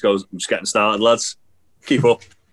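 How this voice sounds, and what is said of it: Put-on thick Leeds Yorkshire accent. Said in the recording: “He's got like that thick Leeds accent ... Yorkshire as fuck ... Yorkshire twang”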